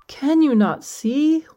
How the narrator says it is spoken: wailed the charcoal maker

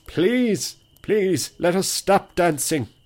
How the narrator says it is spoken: cried the peelers

